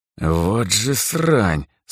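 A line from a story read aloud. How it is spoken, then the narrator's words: Cursing through teeth. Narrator (Russian): сквозь зубы выругался он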